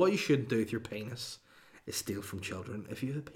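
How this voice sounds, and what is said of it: Usual voice. Nothing is said of it.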